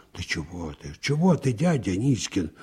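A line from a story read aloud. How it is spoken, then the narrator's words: Embarrassed whisper. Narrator (Russian): смущенно прошептала Наташка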